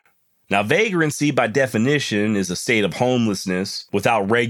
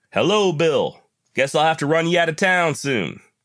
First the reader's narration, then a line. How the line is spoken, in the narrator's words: called out across the street